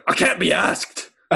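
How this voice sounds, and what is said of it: Put-on British accent. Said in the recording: “In a British accent,”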